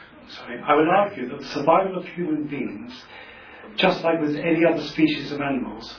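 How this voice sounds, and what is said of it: Usual voice. Nothing is said of it.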